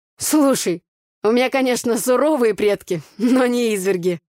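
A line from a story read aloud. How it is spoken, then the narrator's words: Laughing. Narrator (Russian): засмеялся Игорь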